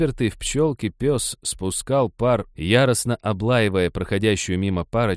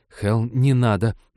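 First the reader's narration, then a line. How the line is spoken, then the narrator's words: Pleading. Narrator (Russian): взмолилась Ивета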